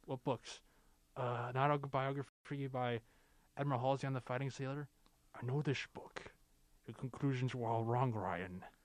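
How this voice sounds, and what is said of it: Sean Connery impression. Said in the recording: “I actually can do a pretty fair Connery impression.”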